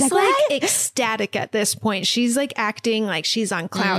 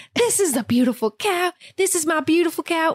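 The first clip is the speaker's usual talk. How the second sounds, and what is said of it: Put-on accent. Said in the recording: “How does the accent? ... That sounded right.”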